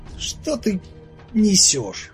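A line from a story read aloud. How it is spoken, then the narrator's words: Through gritted teeth. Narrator (Russian): процедил сквозь зубы Игорь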